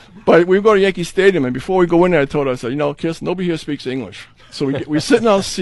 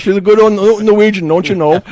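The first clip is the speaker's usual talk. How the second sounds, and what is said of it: Fairly good put-on Minnesota accent. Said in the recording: “that's my Minnesota accent ... Not too bad”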